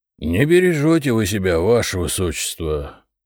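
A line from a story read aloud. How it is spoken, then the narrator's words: Guard's hopeful mutter. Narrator (Russian): пробормотал один из охранников с надеждой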